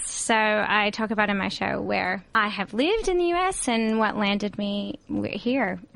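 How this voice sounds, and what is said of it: Southern US accent. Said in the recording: “we're picking up an accent”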